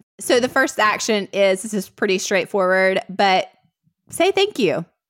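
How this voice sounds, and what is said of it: Mild Southern US accent. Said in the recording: “southern is my southern accent? ... you're not an Alabamian ... the scale of my southern accent”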